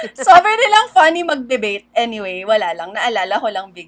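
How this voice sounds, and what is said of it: Usual voice. Nothing is said of it.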